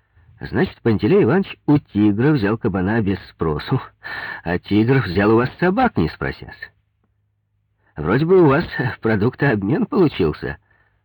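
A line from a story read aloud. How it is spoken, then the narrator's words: Laughing. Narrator (Russian): сказал Коньков и засмеялся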